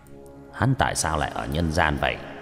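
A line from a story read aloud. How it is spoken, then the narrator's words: Puzzled mutter. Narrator (Vietnamese): Lục Áp Đạo Quân lông mày nhướng lên lẩm bẩm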